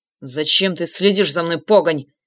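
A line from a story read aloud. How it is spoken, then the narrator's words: Hissed. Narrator (Russian): прошипел он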